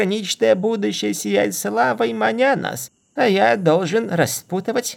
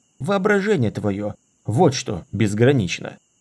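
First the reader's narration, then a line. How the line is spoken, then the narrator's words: Muttering. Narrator (Russian): буркнул Дорин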